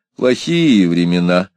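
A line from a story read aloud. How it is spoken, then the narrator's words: Grumbling. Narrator (Russian): ворчал отец Кулон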